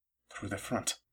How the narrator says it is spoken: Caleb muttered, uneasy

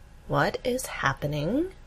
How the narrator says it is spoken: Amy asks slowly

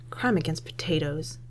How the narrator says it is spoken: mutters

